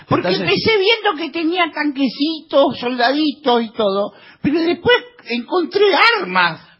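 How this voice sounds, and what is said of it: Child with an old woman's voice. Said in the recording (Spanish): “Es un niño con voz de vieja.”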